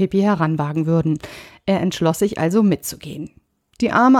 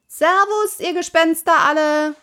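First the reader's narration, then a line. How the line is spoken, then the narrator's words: Calling out. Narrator (German): rief Pippi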